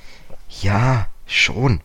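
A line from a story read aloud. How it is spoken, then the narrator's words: Hesitant. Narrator (German): sagte George zögernd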